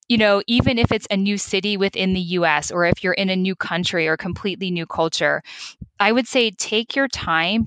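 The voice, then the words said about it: American accent. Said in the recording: “I'm American, as you may have noticed from my accent”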